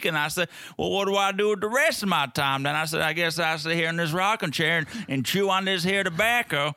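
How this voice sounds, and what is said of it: Put-on accent in character voice. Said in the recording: “That's a sound great accent.”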